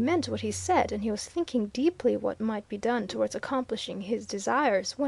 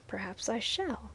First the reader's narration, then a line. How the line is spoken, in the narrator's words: said Viner quietly